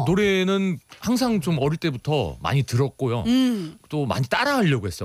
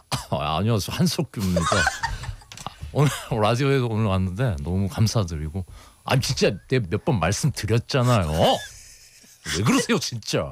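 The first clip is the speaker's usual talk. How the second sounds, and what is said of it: Imitates another person's voice. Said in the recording (Korean): “본인 제일 잘하는 성대모사도 또 있으시잖아요. ... 한석규 선배님”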